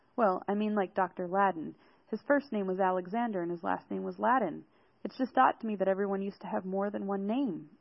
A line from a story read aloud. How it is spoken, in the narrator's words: I laughed